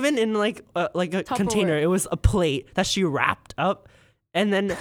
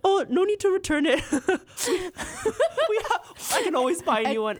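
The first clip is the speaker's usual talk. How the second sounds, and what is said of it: Attempted Filipino accent. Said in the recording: “I can't do a Filipino accent. That's my best. ... is that your attempt on a Filipino accent?”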